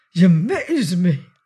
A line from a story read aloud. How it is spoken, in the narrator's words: he gasped